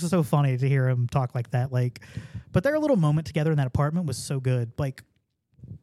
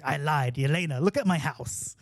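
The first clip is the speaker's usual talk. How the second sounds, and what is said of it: Imitating a character's accent. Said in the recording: “I'm breaking into his accent a little bit”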